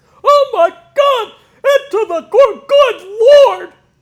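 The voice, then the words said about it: Imitates another person's voice, high-energy. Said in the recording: “high-energy ... I did a great impression of you”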